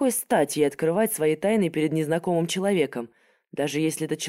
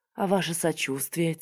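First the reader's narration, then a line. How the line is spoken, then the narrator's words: Quiet reply. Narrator (Russian): тихо ответила Софья Владиславовна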